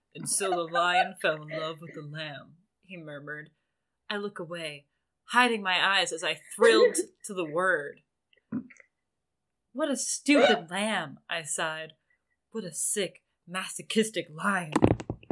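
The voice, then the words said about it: Edward character voice. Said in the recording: “do a Edward voice”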